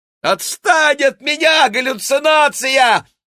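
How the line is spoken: Frantic screaming. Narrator (Russian): вопила она

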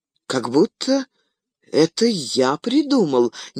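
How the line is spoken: Uncertain. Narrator (Russian): неуверенно сказал Фродо

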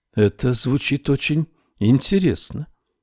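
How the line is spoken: Quiet. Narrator (Russian): тихо произнесла Мэрилу

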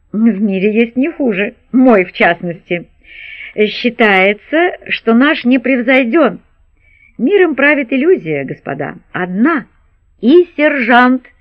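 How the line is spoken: Exclaimed. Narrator (Russian): воскликнул кто-то

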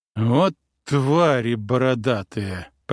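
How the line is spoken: Prince grumbling. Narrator (Russian): проворчал князь

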